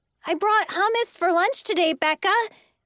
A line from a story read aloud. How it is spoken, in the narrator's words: cried a fourth-grade boy